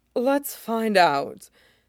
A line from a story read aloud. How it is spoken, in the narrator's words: he panted, tone getting ragged